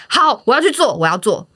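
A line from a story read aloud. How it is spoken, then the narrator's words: Loud. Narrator (Chinese): 我就敢大声的说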